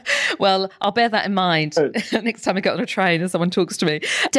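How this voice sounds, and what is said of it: British accent. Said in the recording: “in my British accent”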